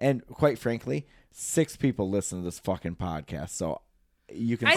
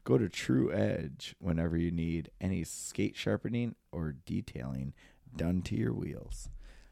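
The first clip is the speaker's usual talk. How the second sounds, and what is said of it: Sexy voice imitating another person. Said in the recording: “in my perfect J voice ... You saw that in the sexy voice ... where you just kind of tail it a little bit”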